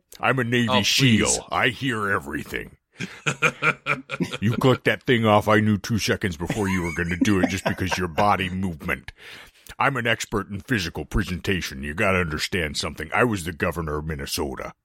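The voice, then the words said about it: Imitates another person's voice. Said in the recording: “your impersonation of him, spot on”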